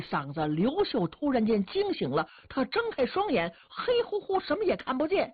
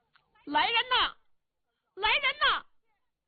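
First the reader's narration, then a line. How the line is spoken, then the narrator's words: Repeated calling out. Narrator (Chinese): 喊了半天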